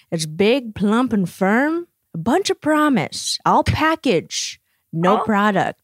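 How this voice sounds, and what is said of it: Matthew McConaughey impression. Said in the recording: “my Matthew McConaughey impression ... really good”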